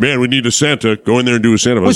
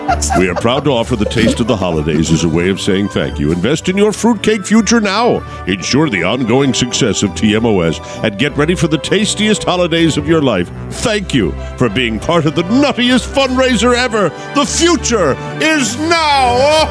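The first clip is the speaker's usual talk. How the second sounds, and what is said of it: Santa Claus voice. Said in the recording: “I just did a Santa voice commercial... I can do a good Santa.”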